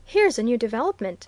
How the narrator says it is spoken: he exclaimed

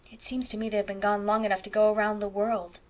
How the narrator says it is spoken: sighed Anne

